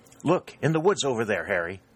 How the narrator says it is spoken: exclaimed St

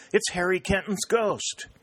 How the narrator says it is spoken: cried

